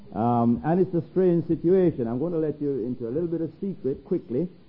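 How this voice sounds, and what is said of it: Non-American accent. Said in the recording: “I haven't got quite an American accent yet”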